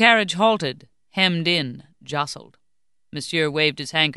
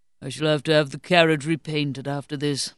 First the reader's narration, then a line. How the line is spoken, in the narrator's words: Monsieur grumbled wearily